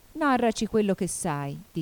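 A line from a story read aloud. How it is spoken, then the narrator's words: Plain. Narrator (Italian): disse il re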